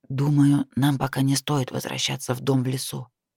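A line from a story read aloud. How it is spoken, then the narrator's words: Whisper. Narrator (Russian): прошептал некромант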